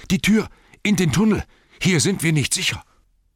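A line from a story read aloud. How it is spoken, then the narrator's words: Panting shout. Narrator (German): rief er keuchend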